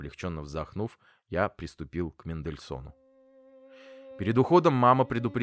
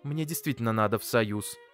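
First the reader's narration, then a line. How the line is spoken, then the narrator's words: Angry. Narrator (Russian): сердито проговорила мама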